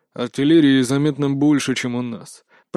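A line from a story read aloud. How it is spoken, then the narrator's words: Muttering under breath. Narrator (Russian): пробурчал он под нос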